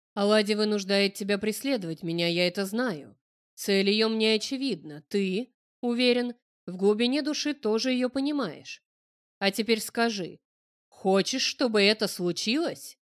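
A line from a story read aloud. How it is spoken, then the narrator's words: Almost growled. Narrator (Russian): я немногим не прорычал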